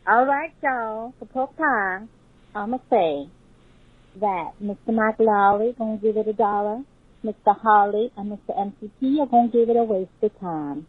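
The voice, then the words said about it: Put-on Alabama Southern accent. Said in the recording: “Alabama accent ... That was a good accent”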